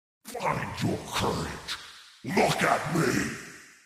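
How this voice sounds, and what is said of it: Grinding, guttural, slow mocking voice. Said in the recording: “a grinding voice ... The words were guttural, each syllable slowly surfacing as if rising from the depths of a furnace ... its mocking tone”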